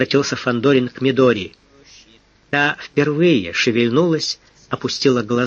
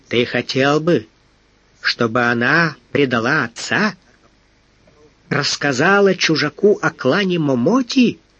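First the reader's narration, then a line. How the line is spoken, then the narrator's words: Menacing question. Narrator (Russian): грозно спросил Тамба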